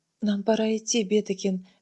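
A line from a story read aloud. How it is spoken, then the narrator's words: Soft. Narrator (Russian): мягко сказал Адриан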